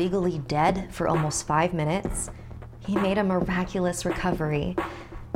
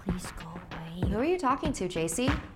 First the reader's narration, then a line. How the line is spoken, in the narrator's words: muttering to himself